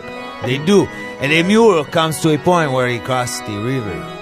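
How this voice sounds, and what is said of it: Good put-on Italian accent. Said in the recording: “Is that an Italian? Italian accent? ... He's using an Italian accent. ... He's so good at that.”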